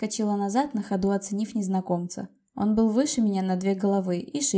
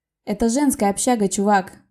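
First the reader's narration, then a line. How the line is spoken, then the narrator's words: Rude, curt. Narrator (Russian): грубо бросила я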